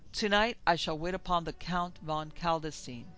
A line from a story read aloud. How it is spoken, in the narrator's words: raising my voice, I cried